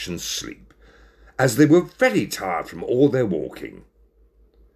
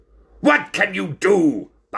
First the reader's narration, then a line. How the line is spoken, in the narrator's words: barked the ringmaster